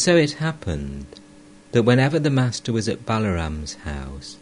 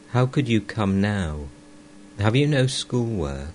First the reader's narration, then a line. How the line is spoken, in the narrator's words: tenderly